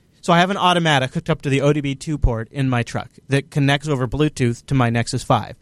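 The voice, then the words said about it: Slightly clogged, congested voice. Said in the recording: “this is actually the first time I've really talked today, so my voice is a little clogged up.”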